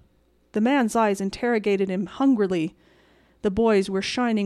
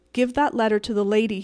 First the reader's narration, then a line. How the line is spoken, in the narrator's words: said